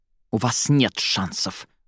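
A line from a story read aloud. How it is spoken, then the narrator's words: Snapping retort. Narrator (Russian): огрызнулась та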